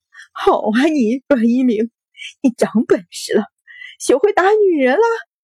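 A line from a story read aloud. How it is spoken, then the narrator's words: Crying, shaken woman. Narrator (Chinese): 秦氏白着脸哭道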